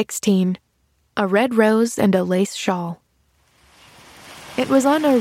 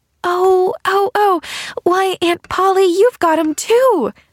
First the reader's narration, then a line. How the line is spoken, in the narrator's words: She cried rapturously